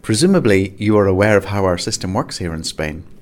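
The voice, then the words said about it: Put-on Spanish accent. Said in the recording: “Got my Spanish accent there.”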